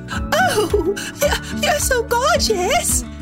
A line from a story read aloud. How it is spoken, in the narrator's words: Yellow Tulip cried